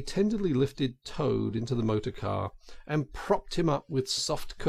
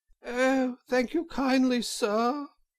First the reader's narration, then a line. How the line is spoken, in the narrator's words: said Toad in a feeble voice